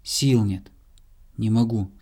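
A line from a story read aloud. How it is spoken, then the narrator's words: Plain. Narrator (Russian): сказал заяц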